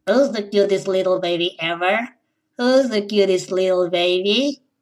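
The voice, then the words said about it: Cute falsetto baby voice. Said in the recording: “speaking with a baby voice ... that voice ... cute falsetto voices”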